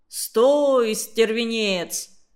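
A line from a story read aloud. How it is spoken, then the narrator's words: Menacing. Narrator (Russian): Люськин отец … грозно сказал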